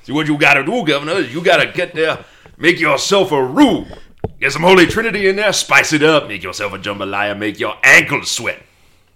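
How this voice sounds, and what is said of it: Put-on Cajun accent. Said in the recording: “I had to fight my instinct to do a Cajun accent there.”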